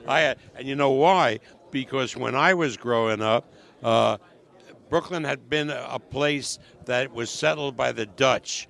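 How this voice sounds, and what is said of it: Brooklyn accent. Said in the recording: “you're still a Brooklyn guy, so you still got that accent”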